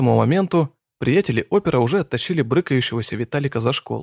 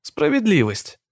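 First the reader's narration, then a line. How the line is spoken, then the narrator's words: Joyful reply. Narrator (Russian): Радостно ответил опер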